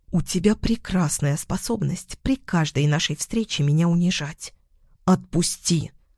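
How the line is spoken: Angry hiss. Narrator (Russian): прошипела Лиана

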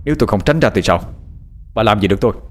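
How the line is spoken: Low, stern, defiant. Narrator (Vietnamese): Giọng nói trầm lắng nghiêm nghị đầy thách thức đáp lại bà Hoa

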